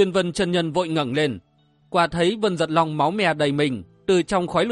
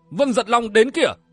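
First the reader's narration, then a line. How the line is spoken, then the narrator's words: Shouting. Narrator (Vietnamese): cái vương quát lên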